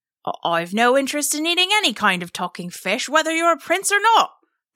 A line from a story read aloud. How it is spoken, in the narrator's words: the fisherman exclaimed